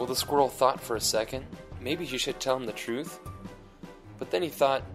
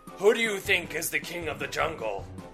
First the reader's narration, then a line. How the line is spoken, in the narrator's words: The lion roared